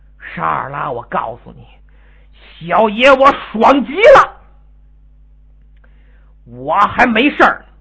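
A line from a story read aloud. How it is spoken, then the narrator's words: Strained, through gritted teeth. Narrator (Chinese): 星矢憋了半天，咬咬牙，张嘴说话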